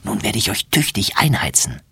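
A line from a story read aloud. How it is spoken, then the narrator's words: Whispered. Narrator (German): flüstert sie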